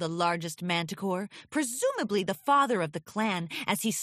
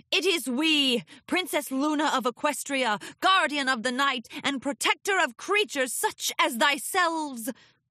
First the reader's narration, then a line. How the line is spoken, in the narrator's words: Luna bellowed at the group